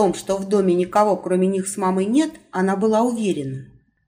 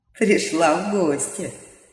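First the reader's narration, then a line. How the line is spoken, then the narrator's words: Good-natured chuckle. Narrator (Russian): добродушно хмыкнул голос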